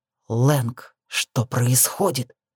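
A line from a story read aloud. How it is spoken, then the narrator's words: Demanding hiss. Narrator (Russian): требовательно прошипел мне Фокс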